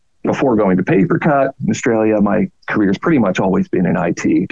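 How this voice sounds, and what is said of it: Canadian English accent. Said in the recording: “You probably guess from my accent, not actually Australian ... I'm Canadian”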